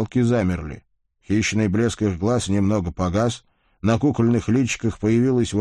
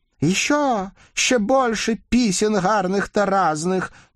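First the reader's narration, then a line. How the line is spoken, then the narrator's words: Crowd shouting. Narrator (Russian): тут же закричали все, начал похрипывать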